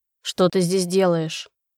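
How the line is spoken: Cold. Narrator (Russian): холодно спросил дракон

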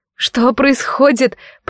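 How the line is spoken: Confused babbling. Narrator (Russian): пролепетала растерянно

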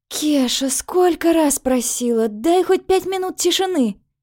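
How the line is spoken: Muffled moan. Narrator (Russian): Простонала я в простыню

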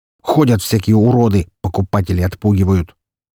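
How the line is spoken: Loud snort. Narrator (Russian): громко хмыкнул

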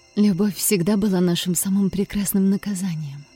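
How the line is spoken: Whispered. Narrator (Russian): прошептала

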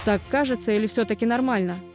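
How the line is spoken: Irritated question. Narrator (Russian): Раздраженно переспросил он

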